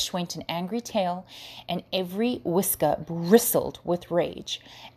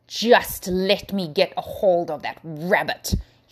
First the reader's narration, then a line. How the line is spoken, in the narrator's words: snarled